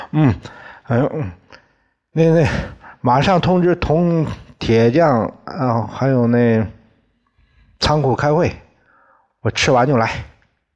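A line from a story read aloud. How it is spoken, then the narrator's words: Muffled, mouth full. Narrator (Chinese): 抓起一个就往嘴里塞，声音嗡嗡的对苏妈说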